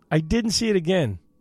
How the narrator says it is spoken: he said

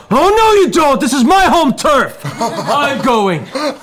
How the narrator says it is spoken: a female halfling, shouting out

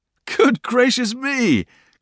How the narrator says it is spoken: cried Traddles

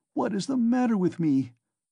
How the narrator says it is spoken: he cried again, like one distraught

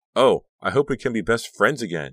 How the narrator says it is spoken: she cried

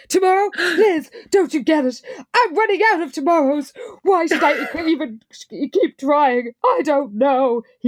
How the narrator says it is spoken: added with a wild laugh

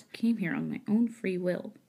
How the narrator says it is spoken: Chua mumbled, her voice barely over a whisper

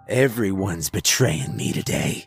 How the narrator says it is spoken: he snarled

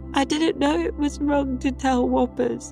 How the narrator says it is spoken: he sobbed

